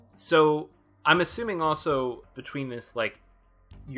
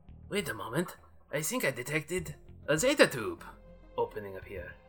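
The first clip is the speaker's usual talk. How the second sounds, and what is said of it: Put-on French accent drifting Russian. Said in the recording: “You hear that French accent ... my French accent turns into Russian”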